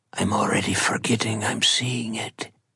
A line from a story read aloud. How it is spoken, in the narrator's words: Bayos whispers to no one in particular